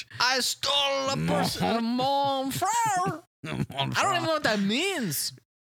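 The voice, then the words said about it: Put-on French accent. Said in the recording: “Yeah, you've gone French. ... So you have a French accent”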